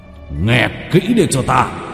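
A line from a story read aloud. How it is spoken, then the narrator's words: Roar. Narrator (Vietnamese): Vương Bình gầm lên một tiếng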